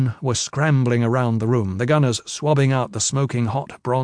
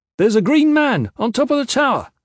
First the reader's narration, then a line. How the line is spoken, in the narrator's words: the spotter on the long lens called out